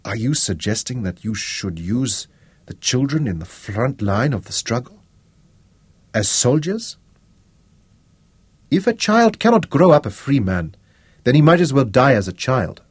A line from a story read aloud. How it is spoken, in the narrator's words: Moses said